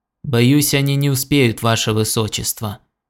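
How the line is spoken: Gloomy reply. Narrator (Russian): мрачно ответил Хелберилл

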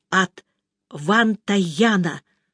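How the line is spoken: Loud whisper. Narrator (Russian): громким шепотом произнесла миссис Беннет

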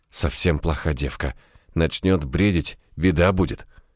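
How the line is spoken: Whispered. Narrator (Russian): прошептала

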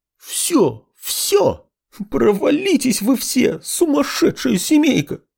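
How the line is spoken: Sobbing. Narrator (Russian): разрыдалась Нина Тимофеевна

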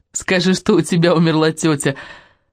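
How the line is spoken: Bursting laughter. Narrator (Russian): расхохоталась Дейзи

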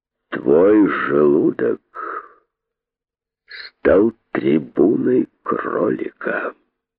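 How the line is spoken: Menacing. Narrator (Russian): сказал грозно

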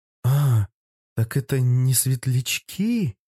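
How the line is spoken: Dumbfounded drawl. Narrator (Russian): протянула я оторопело

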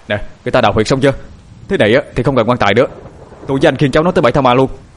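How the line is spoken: Loud shout. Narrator (Vietnamese): Cậu Điền hét lớn

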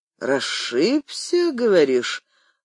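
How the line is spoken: Drawled. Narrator (Russian): протянул Нехорошев

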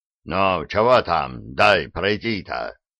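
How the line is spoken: Booming drone from behind. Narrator (Russian): прогудел за его спиной Диффенбахи

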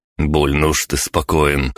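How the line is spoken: Skeptical snort. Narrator (Russian): хмыкнул

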